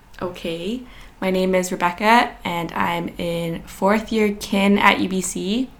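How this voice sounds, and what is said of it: Groggy, just-woke-up voice. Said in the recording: “my head is a little bit groggy. My voice is a little bit groggy”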